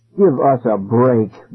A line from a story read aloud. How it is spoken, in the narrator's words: Ben groaned